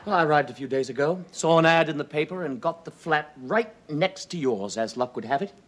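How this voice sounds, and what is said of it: Slight English accent. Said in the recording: “Do I detect a slight English accent? ... Slight. And I've worked so hard on it. I mean, being born in London and all that.”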